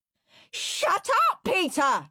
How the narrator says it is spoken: screamed Henry

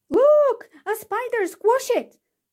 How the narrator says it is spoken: screamed someone

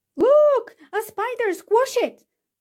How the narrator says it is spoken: screamed someone

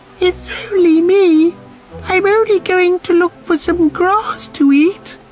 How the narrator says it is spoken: Quaking in his hooves, little billy goat Gruff managed to squeak

